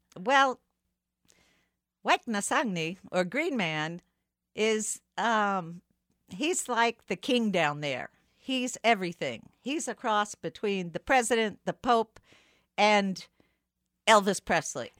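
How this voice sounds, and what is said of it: Southern New Orleans accent. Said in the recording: “your southern accent ... a strange mix of New Orleans accent over my Miskito”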